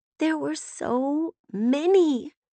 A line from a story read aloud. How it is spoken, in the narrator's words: Brevity said in a small voice